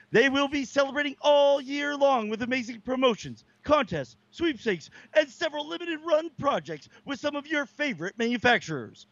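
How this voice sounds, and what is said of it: Serious 1950s commercial announcer voice. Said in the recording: “You put on a new voice for this one and everything. ... You were good, very, very serious there. You kind of reminded me of like Like a guy maybe in like the 50s that would do like a commercial”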